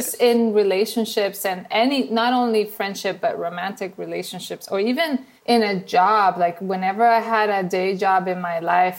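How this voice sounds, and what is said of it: Venezuelan accent. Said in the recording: “my accent that you probably hear is from Venezuela... Not Minnesota, Venezuela”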